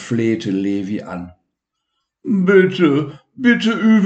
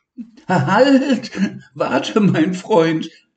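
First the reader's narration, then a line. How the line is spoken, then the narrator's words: Laughing. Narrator (German): lachte Levi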